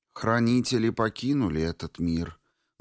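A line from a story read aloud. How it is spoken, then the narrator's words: Sad. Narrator (Russian): грустно сказала она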